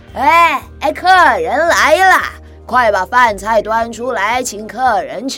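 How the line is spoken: Loud. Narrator (Chinese): 金老爷大声地说

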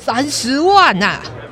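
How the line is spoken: Loud shout. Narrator (Chinese): 耶律曼大声地喊出

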